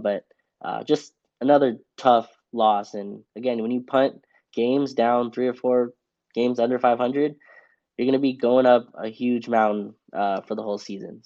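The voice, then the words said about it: Sick-sounding voice. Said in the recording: “I'm actually kind of sick, so apologize for the voice.”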